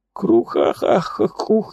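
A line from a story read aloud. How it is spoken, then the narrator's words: Sobbing. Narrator (Russian): всхлипывает пророк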